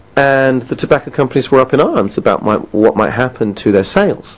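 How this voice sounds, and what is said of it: British accent. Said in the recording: “the United Kingdom, which is where I live, as you might have possibly gathered from my accent”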